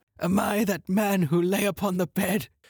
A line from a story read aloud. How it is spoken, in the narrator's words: he cried